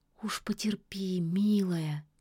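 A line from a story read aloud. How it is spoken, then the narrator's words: Soft, gentle. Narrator (Russian): мягко сказала яга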